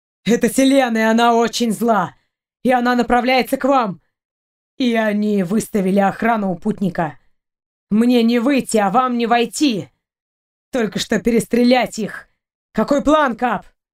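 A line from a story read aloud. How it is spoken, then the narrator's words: Angry growl. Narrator (Russian): Сапер зарычал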